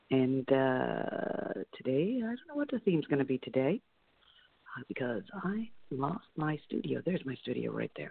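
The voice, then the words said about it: Voice a little low. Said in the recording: “my voice is a little low. Allergies.”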